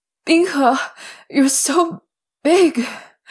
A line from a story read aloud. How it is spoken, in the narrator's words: he cried, louder than was probably strictly necessary